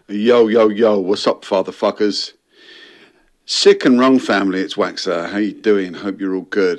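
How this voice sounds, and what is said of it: London accent. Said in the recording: “it's just like proper London ... It kind of reminds me of almost like a Ray Winston type accent.”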